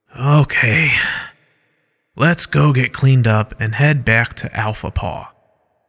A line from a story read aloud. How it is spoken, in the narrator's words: Derek speaks in an aching voice